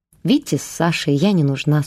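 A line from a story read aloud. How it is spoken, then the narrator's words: Calm reply. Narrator (Russian): спокойно ответила Вера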